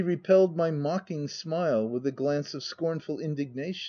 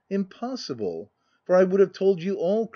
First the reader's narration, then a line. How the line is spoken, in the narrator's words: cried she passionately